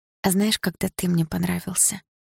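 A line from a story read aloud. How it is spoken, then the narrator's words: Sleepy muffled question. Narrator (Russian): сонно спросила я, уткнувшись носом в его шею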